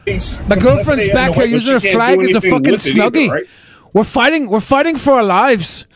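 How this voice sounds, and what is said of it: Put-on accent. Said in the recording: “That's my best accent.”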